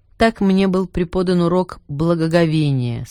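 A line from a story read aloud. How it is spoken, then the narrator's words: Plain. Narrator (Russian): сказал архиерей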